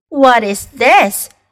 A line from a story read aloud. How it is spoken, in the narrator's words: she cried